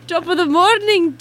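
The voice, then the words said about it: Put-on Irish accent. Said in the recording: “Can you say yay in an Irish accent?”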